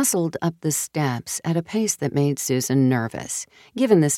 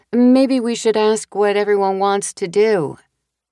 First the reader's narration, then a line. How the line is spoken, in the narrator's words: Jenny shouted up the stairs